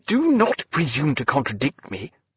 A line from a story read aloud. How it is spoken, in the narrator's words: said Stephen sharply